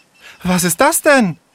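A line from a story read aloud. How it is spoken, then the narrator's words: Breathless gasp. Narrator (German): japste sie außer Atem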